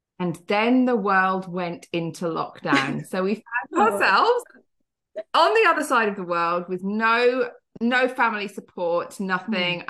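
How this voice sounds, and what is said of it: British accent. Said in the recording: “from the UK, you can probably tell from my accent”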